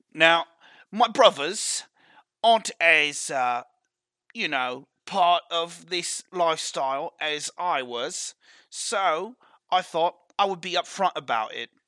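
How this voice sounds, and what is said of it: Put-on character accent. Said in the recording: “Oh, sorry, I lost my accent. I'm supposed to be talking like this.”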